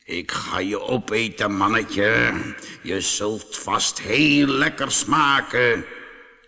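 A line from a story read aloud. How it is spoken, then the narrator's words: Lion growling. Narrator (Dutch): de leeuw gromde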